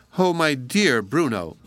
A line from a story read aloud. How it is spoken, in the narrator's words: exclaimed